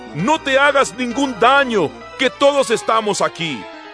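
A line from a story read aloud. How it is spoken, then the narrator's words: Shouted. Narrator (Spanish): Pablo le gritó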